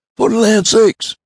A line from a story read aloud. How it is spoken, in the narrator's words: he cried